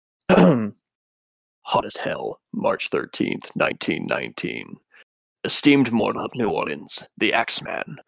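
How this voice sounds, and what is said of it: Spooky dramatic reading voice. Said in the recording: “I'm gonna read this in a spooky voice.”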